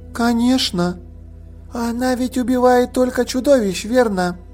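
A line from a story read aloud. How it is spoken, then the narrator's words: Sleepy girl's voice. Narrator (Russian): сонным голосом произнесла девочка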